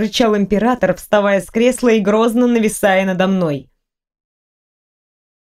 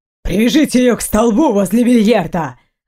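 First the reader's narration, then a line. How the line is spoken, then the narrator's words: Barked order. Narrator (Russian): рявкнул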